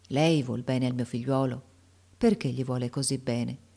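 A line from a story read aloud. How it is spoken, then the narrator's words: Sad, affectionate voice. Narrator (Italian): gli disse con voce triste e affettuosa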